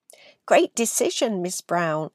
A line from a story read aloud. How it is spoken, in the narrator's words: exclaimed many of the children